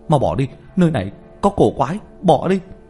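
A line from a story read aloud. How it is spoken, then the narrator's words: Raised-voice cry. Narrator (Vietnamese): cao giọng kêu lên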